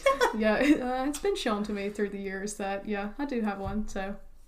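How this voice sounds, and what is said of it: Thick Southern US accent. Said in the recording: “this southern accent ... I sound like a country hick. ... your accent's really thick.”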